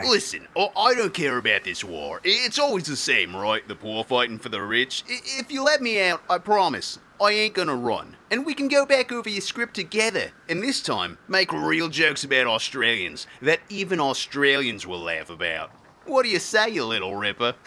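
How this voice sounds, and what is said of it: Put-on Australian accent. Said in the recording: “his accent is so authentic”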